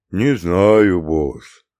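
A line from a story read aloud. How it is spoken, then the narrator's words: Gloomy mumble. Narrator (Russian): уныло бубнил Бруно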